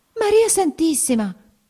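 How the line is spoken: Woman exclaiming. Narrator (Italian): esclamò ella

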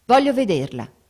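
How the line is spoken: Curt repetition. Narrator (Italian): ripeté seccamente

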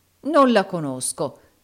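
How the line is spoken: Exclamation. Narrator (Italian): esclamò il baronetto Mulberry Hawk

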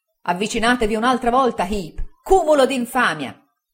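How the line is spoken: Shouting. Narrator (Italian): gridò il signor Micawber

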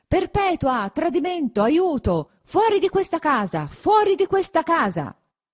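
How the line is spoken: Continued shouting. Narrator (Italian): gridando tuttavia

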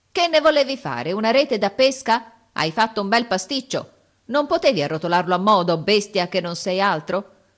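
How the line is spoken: Strained, intermittent grumbling. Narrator (Italian): Brontola di tanto in tanto, affaticandosi

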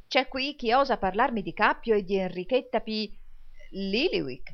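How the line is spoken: Exclaiming. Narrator (Italian): esclamò il signor Crummles

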